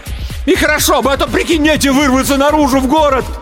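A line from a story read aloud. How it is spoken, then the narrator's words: Loud full-breath shout. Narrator (Russian): Илья набрал побольше воздуха и закричал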